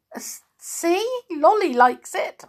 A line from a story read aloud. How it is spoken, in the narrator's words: spluttered